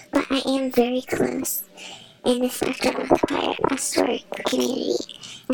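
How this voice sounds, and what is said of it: Modified, disguised voice. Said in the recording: “My voice is modified”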